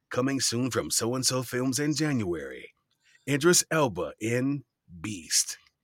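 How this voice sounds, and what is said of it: Movie trailer announcer voice. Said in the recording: “put on my best trailer voice.”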